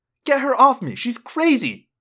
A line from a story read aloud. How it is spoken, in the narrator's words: Jessica cried